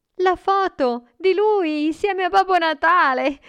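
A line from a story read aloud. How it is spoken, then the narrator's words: Boy's exclamation. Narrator (Italian): il ragazzo esclamò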